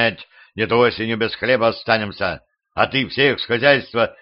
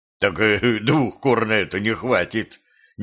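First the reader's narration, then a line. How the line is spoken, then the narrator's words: Husband bursting into laughter. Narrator (Russian): не выдержав, рассмеялся муж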